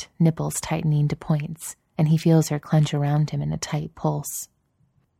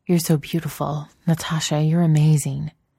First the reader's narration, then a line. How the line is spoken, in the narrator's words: rasps out